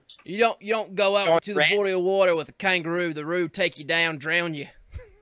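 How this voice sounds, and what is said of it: Put-on Australian accent. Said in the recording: “our Aussie accents are on point tonight”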